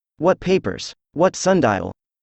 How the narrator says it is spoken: he asked

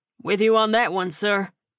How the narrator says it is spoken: the sergeant replied with a chuckle

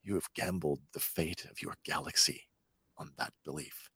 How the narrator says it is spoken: Thrawn whispers menacingly at her

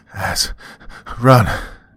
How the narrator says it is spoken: Jess gasped, pleading with me to leave him behind

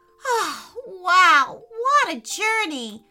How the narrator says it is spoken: Audrey shouted in delight

